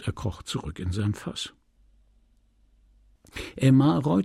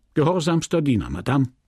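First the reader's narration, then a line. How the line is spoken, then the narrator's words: Curt reply. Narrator (German): erwiderte er schroff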